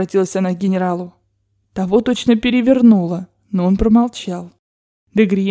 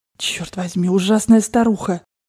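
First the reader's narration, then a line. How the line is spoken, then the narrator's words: Hissed through teeth. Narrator (Russian): прошептал он сквозь зубы генералу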